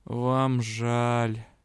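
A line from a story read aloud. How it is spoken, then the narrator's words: Heavy sigh. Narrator (Russian): тяжело вздохнул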